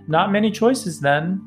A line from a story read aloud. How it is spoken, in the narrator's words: she just laughed and said